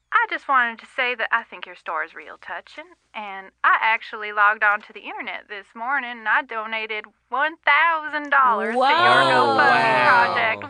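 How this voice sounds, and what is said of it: Southern American accent. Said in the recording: “You sound Southern.”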